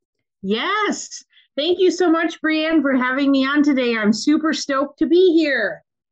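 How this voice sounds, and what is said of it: Minnesota accent. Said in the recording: “She is from Minnesota, as you will hear in her accent.”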